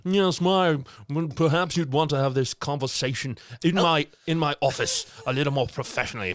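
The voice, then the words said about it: Smarmy British villain accent. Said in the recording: “Dr. Kruger, he's got that smarmy British accent that all villains have ... Smarmy.”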